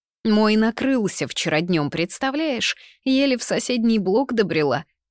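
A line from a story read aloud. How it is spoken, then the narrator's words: Sharp shrill voice. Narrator (Russian): резкого, визгливого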